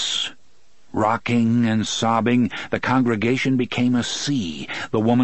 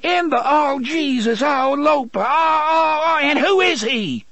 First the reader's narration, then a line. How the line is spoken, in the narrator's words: She screamed